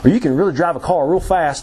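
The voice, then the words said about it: Put-on South Carolina accent. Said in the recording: “I don't know why I chose accent there... South Carolina go-kart racers, and they do always talk like that”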